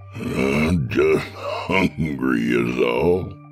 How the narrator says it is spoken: he chuckled

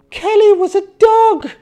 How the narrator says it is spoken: pleaded

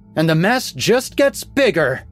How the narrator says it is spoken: she spat

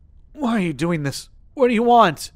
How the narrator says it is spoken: he wheezed

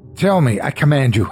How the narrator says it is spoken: I cried

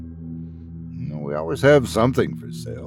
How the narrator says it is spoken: the mayor chuckled

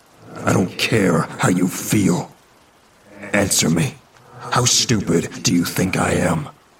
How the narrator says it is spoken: His voice rose and shook

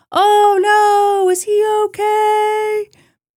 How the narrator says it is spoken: They shouted things like

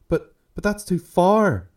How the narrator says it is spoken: she groaned

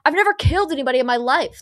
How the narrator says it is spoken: the coach yells

